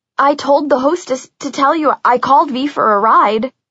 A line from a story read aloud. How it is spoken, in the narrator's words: I stammered